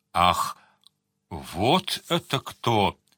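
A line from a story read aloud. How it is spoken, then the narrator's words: Muttering through teeth. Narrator (Russian): сквозь зубы пробормотал Сварог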